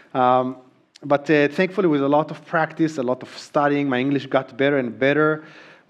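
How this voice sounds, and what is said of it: Hebrew-accented English. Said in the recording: “My accent got better, not perfect. This is me really trying, by the way... there are still sounds that I just really struggle saying, like the TH sound. We don't have it in Hebrew... The R sound, I just can't do it”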